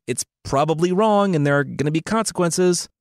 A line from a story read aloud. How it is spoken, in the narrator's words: Angus yelled